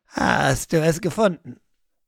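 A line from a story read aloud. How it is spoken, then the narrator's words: Raven croaking. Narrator (German): Krächzend hüpfte der Rabe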